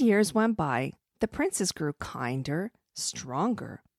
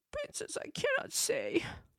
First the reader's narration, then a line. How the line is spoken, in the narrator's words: The little boy hid his face and tearfully mumbled